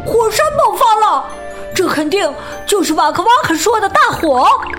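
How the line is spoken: Shouting. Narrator (Chinese): 多多喊道

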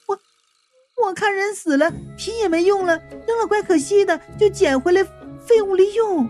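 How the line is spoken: Embarrassed, stammering cry. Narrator (Chinese): 云美叫了一声，语气颇为不好意思

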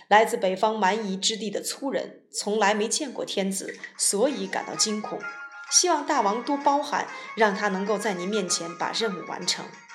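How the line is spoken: Smiling, apologetic. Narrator (Chinese): 荆轲笑了笑，谢罪说

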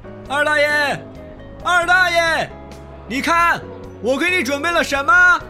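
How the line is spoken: Shouting from afar. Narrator (Chinese): 隔着老远，口中高喊道

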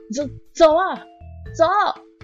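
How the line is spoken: Loud shouting, pinned down. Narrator (Chinese): 被按在地上的阿迪大声的喊着

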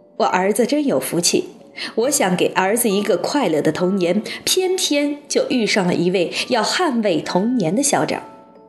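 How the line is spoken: Silent inner speech. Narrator (Chinese): 马天笑先生在心里说

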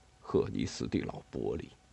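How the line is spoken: Low mutter. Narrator (Chinese): 他在低声嘟囔

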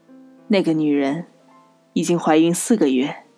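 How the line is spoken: Soft. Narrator (Chinese): 罗格轻声说

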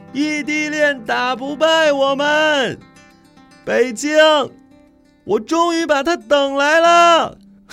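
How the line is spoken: Drunken shout. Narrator (Chinese): 方林扶着栏杆，一身酒气，对着寒夜里大喊

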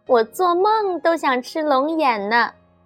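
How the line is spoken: Joyful child. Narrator (Chinese): 圆圆的小脸笑成了一朵花 说

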